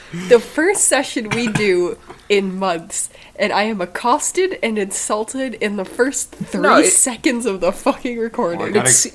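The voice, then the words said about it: Sick, rough-sounding voice. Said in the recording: “my voice sounds like shit... She's got pneumonia or something”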